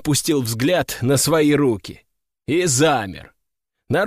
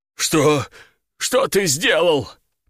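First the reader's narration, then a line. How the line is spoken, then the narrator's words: Trembling whisper. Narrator (Russian): прошептал он дрожащим голосом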